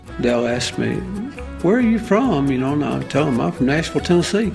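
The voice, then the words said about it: Slight Southern country drawl. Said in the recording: “you kind of got a drawl ... do I sound a little country? And they'll say, well, just a little bit.”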